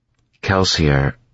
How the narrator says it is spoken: Vin said flatly

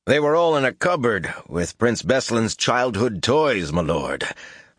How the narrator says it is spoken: laughed

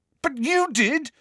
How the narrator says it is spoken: said Harry angrily

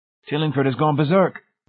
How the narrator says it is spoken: Laws gasped

